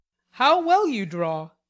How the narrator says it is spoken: he said, with a genuine surprise and pleasure at her skill

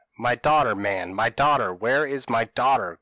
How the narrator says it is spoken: cried he in rage

